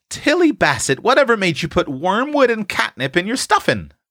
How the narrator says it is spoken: demanded Ma, trying not to be severe, for all the rest were laughing

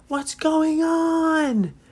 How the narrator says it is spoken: Nora, she yelled, as she said

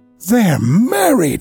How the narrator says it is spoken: I gasped

